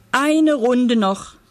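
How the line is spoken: Call out. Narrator (German): rief der Zirkusdirektor

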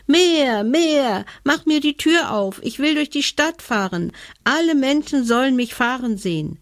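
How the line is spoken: Shouting. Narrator (German): schrie Hebelmann

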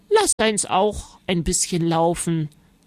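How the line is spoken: Plain. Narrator (German): sagte Oma

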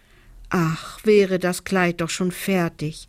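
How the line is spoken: Longing sigh. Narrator (German): seufzt Lisa sehnsüchtig

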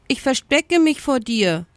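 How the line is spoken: Brusque answer. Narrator (German): antwortete der Strauß schroff

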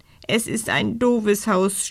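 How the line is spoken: Sobbing. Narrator (German): schluchzt er

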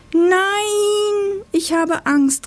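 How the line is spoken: Called out. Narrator (German): rief es

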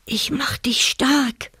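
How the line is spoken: Whispered. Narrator (German): flüsterte er

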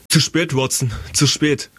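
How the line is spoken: Calling out. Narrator (German): rief Holmes

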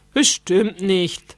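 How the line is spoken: Plain. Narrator (German): sagte Papa

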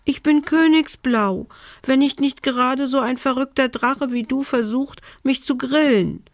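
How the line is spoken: Squeaky voice. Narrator (German): piepste die Elfe

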